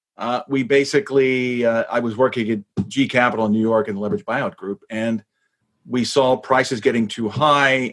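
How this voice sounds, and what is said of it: American accent. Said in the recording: “You haven't lost your American accent?”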